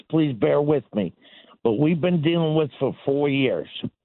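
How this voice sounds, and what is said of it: Impaired, unusual-sounding voice. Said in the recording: “Sorry about my voice.”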